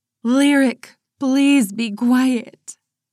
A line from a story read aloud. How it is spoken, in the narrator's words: Mama pleaded